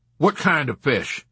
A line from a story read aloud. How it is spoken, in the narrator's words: the doctor inquired sternly